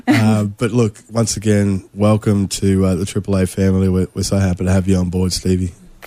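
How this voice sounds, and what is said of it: Raspy voice. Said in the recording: “my voice is a little bit raspy ... I think I've done about 350,000 interviews in the last week or so.”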